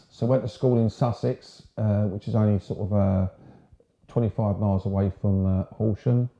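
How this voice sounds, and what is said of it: English home counties accent. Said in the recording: “sometimes my accent becomes more London, depending on where I am, but generally it's home counties”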